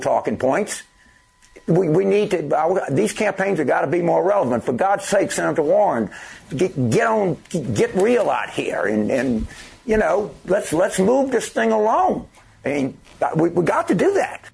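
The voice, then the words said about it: Imitates another person's Louisiana accent. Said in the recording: “I'm mocking James Carville. He's from Louisiana. ... I like his accent.”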